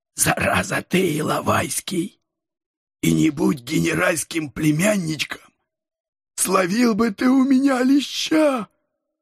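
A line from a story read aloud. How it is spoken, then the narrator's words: Strained hoarse whisper. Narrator (Russian): Осторожно держась за горло, прошептал он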